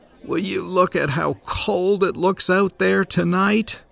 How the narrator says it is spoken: Someone nearer to the door groaned

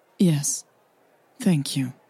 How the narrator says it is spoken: Hannah said quietly, still feeling the sting of her mother's disapproval

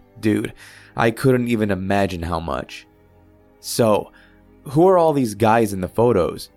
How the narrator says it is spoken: I asked

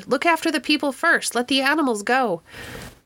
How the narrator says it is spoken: Some voices shouted

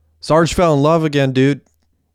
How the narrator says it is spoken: yelled Messi

